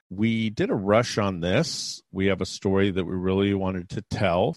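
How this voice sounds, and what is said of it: Low, subdued voice. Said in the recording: “my voice is a little low”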